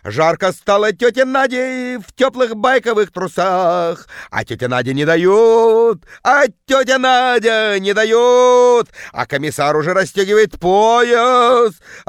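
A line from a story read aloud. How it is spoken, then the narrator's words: Woman bellowing in deep bass. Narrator (Russian): орала тетка жутким басом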